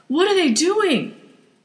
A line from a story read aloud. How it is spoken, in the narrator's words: Trish yelled